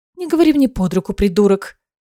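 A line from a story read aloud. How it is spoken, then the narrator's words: Snapping retort. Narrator (Russian): огрызнулась Аэлина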